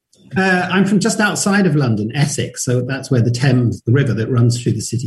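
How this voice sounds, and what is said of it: British English accent. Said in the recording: “I'm going to guess from your accent that you're from the United Kingdom originally”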